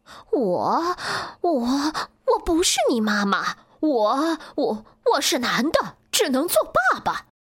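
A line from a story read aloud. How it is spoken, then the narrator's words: Frightened stammer. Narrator (Chinese): 狐狸吓呆了，结结巴巴的说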